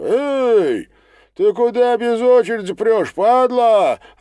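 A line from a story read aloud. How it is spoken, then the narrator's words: Indignant shout. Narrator (Russian): возмущен крикнул кто-то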